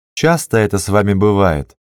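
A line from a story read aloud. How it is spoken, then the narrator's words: Plain. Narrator (Russian): спросил он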